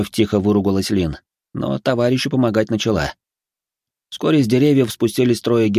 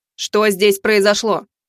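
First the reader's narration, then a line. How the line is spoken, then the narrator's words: Stern question. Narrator (Russian): строго спросила Арчанка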